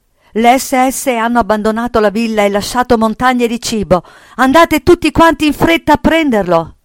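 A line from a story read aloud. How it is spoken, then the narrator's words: Excited shouting. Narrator (Italian): gridando tutto eccitato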